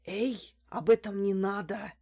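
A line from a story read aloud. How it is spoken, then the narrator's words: Wary whisper. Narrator (Russian): опасливо оглядываясь, прошептал Карапет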